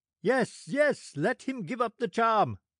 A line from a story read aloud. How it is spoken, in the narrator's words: cried the sailors